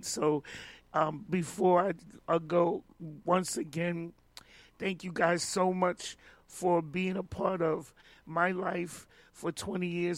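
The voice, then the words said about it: Voice going, worn out. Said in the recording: “my voice is going, as you can hear it”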